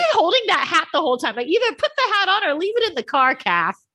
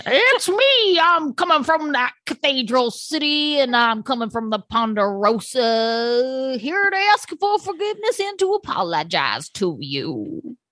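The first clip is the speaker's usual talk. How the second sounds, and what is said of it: Weird put-on accent. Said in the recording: “She does her weird accent again.”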